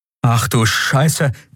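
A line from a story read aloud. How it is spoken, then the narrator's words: Sudden gasp. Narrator (German): keuchte plötzlich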